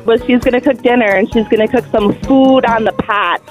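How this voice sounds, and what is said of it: Upper Peninsula Michigan accent. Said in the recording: “now I talk like that, apparently, but I mean, you just say like O's as ah ... It's kind of a funny Uperish accent.”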